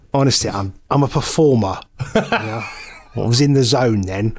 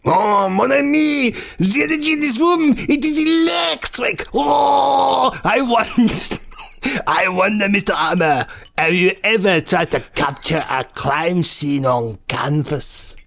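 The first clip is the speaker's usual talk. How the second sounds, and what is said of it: Thick put-on French accent. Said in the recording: “his deep French accent there, I do stress it ... I couldn't understand that ... dial back the French just a touch”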